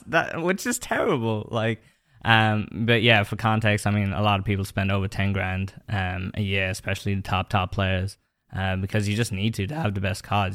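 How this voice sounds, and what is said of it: Irish accent mixed with English, American. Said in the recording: “for anyone who can recognize your accent, they can tell you're from Ireland ... my accent is completely weird ... I was actually born in England and then grew up in Ireland ... got that kind of mix of an accent ... from watching American TV, is why there's American”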